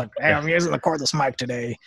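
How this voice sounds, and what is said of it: Imitates another person's voice. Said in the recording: “That was a good imitation... That was spot on.”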